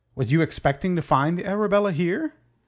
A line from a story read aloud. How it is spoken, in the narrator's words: laughed and spoke loud enough to be heard by all around him